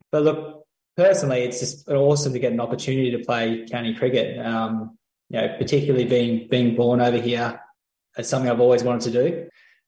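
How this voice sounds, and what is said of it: Very strong Australian accent. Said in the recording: “that is a very, very strong Australian accent and an Australian accent ... I can tell by your voice”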